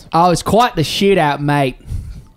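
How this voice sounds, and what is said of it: Put-on thick Australian accent. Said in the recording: “the guy's got a thick Australian accent”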